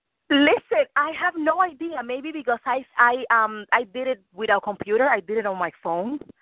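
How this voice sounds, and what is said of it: Slight Cuban accent in English. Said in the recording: “I'm sorry about my accent. I'm Cuban. I'm from Cuba, so I have a little accent.”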